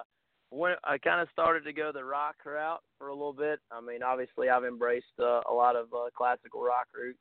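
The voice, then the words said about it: Appalachian Southern accent. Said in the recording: “You probably hear from my accent ... growing up in Southern West Virginia, I've developed kind of that Appalachian accent”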